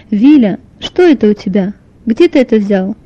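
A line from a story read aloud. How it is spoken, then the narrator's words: Stern mother's question. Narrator (Russian): спросила строго мама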